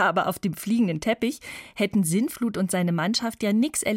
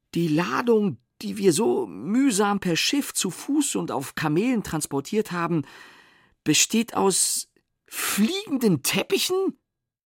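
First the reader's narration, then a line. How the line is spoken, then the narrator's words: Angry stammering. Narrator (German): stammelte Sintflut und wurde zornesrot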